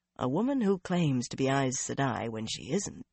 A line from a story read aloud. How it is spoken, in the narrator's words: Swan murmured as though voicing an idle thought